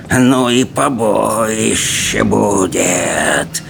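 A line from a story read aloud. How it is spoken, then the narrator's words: Hissing, spiteful gremlin. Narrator (Russian): прошипел слизняк, дракон Письедуха, уродливый громель с носом картошкой и весьма злобным нравом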